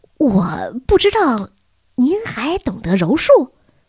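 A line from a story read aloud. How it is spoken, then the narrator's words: Admiring exclamation. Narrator (Chinese): 布鲁诺赞叹道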